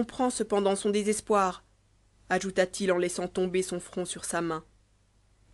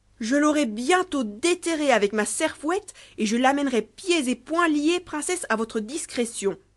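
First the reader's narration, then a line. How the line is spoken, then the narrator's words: Furious exclamation. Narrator (French): s'écria Trésor des fèves, furieux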